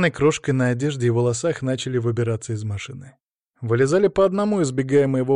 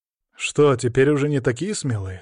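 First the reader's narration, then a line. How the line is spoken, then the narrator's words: Calm question. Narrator (Russian): спокойно спросил я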